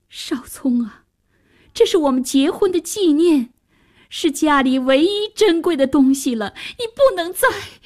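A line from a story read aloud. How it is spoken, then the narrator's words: Desperate pleading. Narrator (Chinese): 妈妈苦苦哀求着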